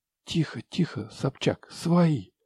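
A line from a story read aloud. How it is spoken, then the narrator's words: Whisper. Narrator (Russian): прошептал Игорь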